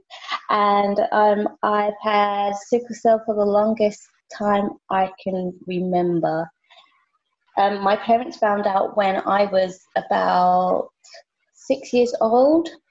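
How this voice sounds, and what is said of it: British accent. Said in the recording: “I live in the UK, as you can tell by my accent”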